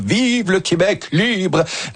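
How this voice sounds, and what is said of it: Mediocre Charles de Gaulle impression. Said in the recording (French): “Moyenne imitation, mais ouais, l'intention était là ... On dirait qu'il avait la grippe ce jour-là.”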